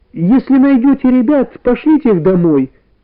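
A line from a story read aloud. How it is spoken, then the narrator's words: Mother shouting. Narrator (Russian): крикнула мама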